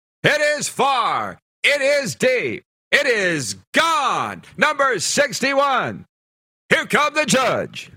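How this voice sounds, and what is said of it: Imitates a baseball radio announcer's call. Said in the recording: “John Sterling imitation? That's the radio voice of the New York Yankees.”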